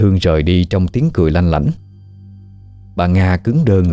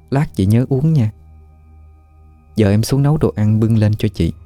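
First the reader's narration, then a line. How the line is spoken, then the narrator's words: Sinister whisper. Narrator (Vietnamese): Hương mỉm cười ma quái, sát tai bà Nga mà thì thầm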